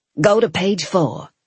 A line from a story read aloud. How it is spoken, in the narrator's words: she said